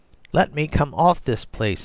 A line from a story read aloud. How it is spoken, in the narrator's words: he cried